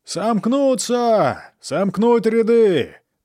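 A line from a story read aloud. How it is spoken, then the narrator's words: Repeated shouting, officers. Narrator (Russian): то и дело кричали офицеры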